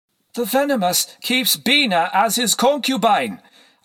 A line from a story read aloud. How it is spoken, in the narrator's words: I exclaimed, as if that would shock them